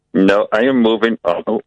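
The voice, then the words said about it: Bad robot voice. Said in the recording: “This is the worst robot voice I've ever heard.”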